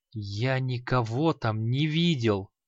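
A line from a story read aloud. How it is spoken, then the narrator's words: Barely restrained angry hiss. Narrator (Russian): прошипел креол, едва сдерживаясь от распирающей его злости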